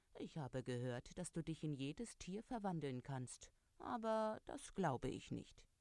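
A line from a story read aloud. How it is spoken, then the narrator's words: Purring cat. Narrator (German): Der Kater schnurrte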